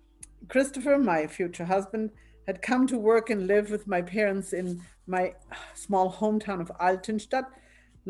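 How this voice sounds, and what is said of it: German Bavarian accent. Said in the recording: “I'm originally from Bavaria, you may hear an accent in my pronunciation”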